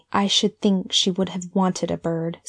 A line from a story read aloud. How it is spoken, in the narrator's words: she added, almost bitterly